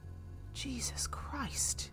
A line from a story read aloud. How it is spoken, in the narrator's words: Teresa breathed to her mother